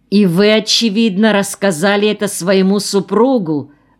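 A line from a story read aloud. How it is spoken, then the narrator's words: Dangerous, menacing tone. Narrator (Russian): спросила она опасным тоном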